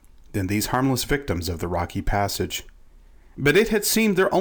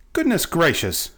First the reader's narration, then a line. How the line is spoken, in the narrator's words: cried Betsy